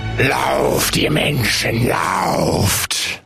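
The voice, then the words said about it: Creepy orc monster voice. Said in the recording (German): “Wie klingst du denn als Ork? ... das klingt wirklich gruselig”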